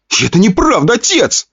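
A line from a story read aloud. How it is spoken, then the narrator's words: Young man shouting. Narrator (Russian): выкрикнул парень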